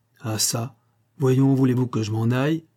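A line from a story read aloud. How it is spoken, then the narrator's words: Exclaiming. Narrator (French): s'écria-t-il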